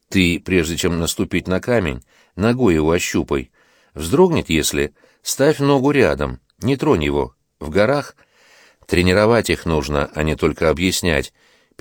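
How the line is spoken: Low voice. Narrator (Russian): заговорил вполголоса

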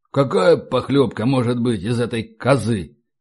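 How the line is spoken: Grumble. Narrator (Russian): проворчал Игнат Семеряков

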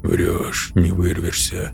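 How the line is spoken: Muttered. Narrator (Russian): пробормотал алгоритмист

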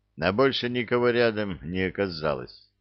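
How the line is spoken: Tired explanation. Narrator (Russian): устало объяснил рыжий

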